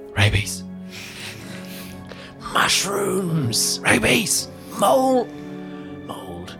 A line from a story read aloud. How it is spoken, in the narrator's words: whispers